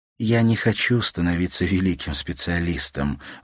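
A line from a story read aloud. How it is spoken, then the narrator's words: Sigh. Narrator (Russian): вздохнула Ивенлин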